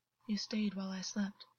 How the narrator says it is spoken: August murmured

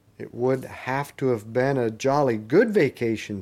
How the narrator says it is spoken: said Eustace

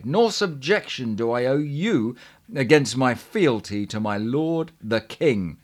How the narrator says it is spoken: he cried

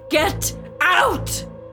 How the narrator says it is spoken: roared

